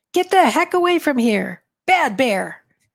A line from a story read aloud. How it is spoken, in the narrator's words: Again I yell